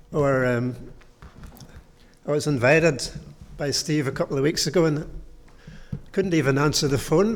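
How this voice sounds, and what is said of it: Slightly hoarse voice. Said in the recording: “I'm a bit hoarse. I'm still recovering from chest infection.”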